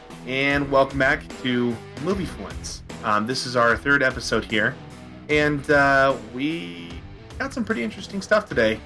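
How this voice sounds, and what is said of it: Tired, unenthusiastic voice. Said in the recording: “sounds so enthused, as you can tell from his voice. ... I'm a little tired right now”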